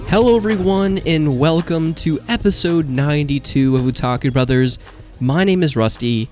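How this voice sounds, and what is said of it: Congested, sick-sounding voice. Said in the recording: “as you can probably tell from my voice, I too am pretty under the weather ... a little case of the sniffles, congestion, a little bit of a cough”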